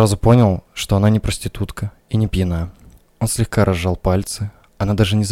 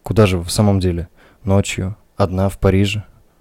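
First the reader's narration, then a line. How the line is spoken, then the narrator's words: Calm repeated question. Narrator (Russian): Спокойно спросил он еще раз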